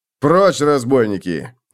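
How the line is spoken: Barked reply. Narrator (Russian): рявкнул в ответ телохранитель

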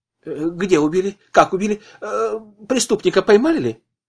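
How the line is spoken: Hurried question. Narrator (Russian): торопливо спросил Слепнев

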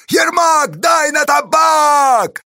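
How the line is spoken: Distant shout. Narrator (Russian): закричал кто-то от потеси Корнилы

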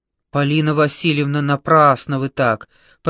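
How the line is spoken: Deep bass voice. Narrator (Russian): пробасила Маша

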